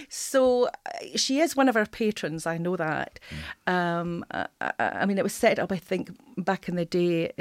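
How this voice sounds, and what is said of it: Scottish accent. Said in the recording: “as you can probably tell by my accent ... I'm just an interloper from north of the border”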